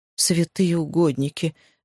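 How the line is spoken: Woman, breathless exclamation. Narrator (Russian): выдохнула женщина

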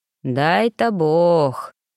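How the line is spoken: Old man's doubtful drawl. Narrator (Russian): протянул старик, не сильно, похоже, веря в чудо

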